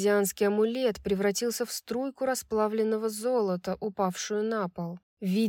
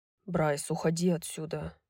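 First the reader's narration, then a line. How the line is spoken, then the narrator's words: Quiet, breaking long silence. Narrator (Russian): тихо сказал он, впервые за день нарушив молчание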